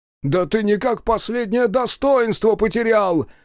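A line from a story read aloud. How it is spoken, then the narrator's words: Yelling. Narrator (Russian): заорал Тиму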